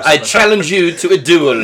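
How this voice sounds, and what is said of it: Attempted French accent. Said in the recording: “what accent? ... it's my attempt ... at my ... French little, accent.”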